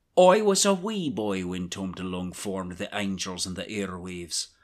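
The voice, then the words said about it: Put-on Irish accent with trilled r. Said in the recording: “I'm probably going to lean into this Irish accent. ... we heard that trill. Yeah. That trill was beautiful.”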